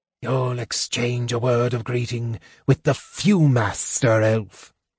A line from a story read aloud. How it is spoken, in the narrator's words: the Draconian snarled